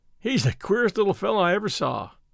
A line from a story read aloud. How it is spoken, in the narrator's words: he observed, with a laugh